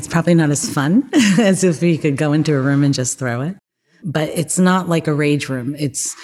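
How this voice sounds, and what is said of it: New Jersey accent. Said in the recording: “I detect a New Jersey accent.”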